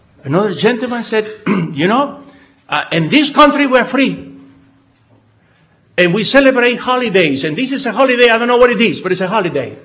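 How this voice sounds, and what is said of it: Israeli-accented English. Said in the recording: “They don't know my accent. I say from Israel.”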